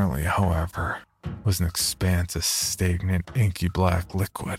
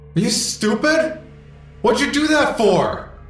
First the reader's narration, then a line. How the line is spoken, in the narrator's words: yelled angrily